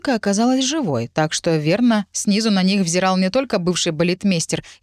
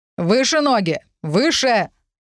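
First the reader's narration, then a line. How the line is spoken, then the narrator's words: Shouted from below. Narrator (Russian): прикрикнули снизу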